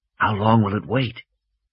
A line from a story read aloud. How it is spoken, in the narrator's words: Malcolm whispered